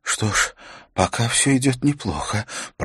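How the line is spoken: Hoarse, agitated. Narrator (Russian): прохрипела она, и голос ее выдавал сильное волнение

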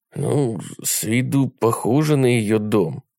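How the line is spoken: Muttering. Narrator (Russian): пробормотал Джим

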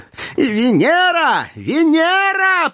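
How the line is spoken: Triumphant shout. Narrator (Russian): победно прокричала Наташа

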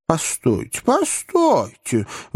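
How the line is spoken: Exclaimed. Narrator (Russian): воскликнул маленький мистер Паркер

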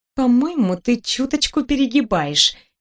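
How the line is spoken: Uncertain. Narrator (Russian): неуверенно ответила я

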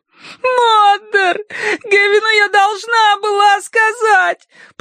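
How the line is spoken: Sobbing. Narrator (Russian): прорыдала она

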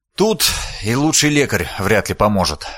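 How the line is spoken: Sighing. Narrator (Russian): вздохнул палач

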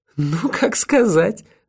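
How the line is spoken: Ringing laugh. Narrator (Russian): звонко рассмеялась Тея

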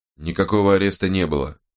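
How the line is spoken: Calm retort. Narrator (Russian): спокойно парировал Страйк

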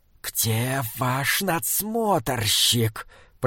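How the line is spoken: Hissing. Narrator (Russian): прошипел Прейроц

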